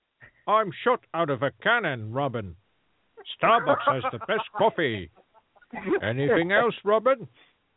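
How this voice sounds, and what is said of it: Poor imitation of another person's voice. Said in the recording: “Here's my impression... That was a terrible impression”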